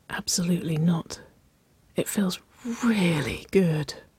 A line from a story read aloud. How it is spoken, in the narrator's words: she whispered